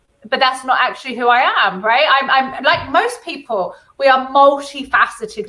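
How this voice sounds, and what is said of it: White middle-class British accent. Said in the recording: “I sound like a white, privileged, middle-class, well-educated MBE”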